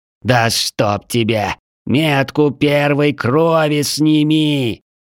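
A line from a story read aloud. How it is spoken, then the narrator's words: Slow, condescending, through teeth. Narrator (Russian): Медленно, словно говорит с идиотом, процедил Вечный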